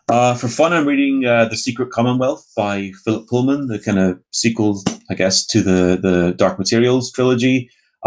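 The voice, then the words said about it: Speaker with a noticeable accent. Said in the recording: “my dodgy accent”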